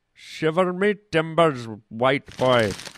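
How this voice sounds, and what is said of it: Ambiguous put-on accent. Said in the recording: “some kind of ambiguous accent.”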